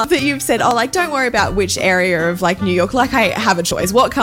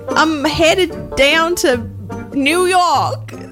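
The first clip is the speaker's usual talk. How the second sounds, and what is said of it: Attempted New York, sounds Texan. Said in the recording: “give me a New York accent. It can be the Bronx. It can be Brooklyn. ... That's very country Texan, ... that was Texas.”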